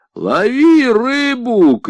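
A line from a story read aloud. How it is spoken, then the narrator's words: Shouting strongman. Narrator (Russian): крикнул силач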